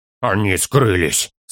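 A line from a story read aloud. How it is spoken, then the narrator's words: Hoarse. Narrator (Russian): сообщил он хрипло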